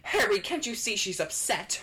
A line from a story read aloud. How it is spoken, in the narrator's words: Hermione snapped